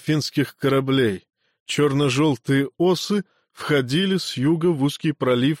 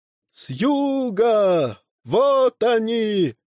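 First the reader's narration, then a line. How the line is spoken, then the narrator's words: Shouted. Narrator (Russian): крикнули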